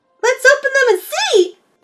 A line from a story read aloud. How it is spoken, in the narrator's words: Patio Green called out as she tore into the wrapping paper with glee